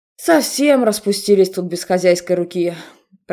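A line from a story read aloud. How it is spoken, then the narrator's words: Grumbling. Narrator (Russian): проворчал Себастин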